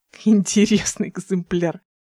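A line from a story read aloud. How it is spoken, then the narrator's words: Laughing. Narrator (Russian): сказал он сквозь смех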